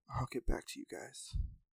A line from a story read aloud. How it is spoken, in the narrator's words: whispered to himself